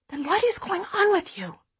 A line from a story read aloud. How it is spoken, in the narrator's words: I whisper